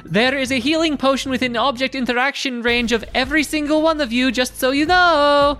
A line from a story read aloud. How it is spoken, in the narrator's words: Tess is going to hear the screams of battle and yell